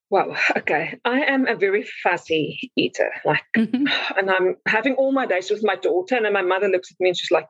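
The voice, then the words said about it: Speaks with a noticeable accent. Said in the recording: “I could listen to you talk all day. First of all, I love your accent”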